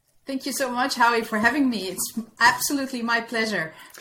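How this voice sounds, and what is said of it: Slight Dutch accent. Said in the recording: “a bit of a Dutch accent I'm hearing?”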